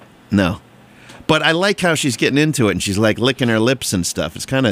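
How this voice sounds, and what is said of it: Usual voice. Nothing is said of it.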